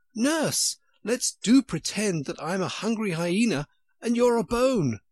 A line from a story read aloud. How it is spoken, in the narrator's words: by shouting suddenly in her ear